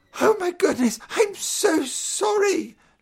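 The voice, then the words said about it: Shaky, frightened voice. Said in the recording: “in a shaky voice.”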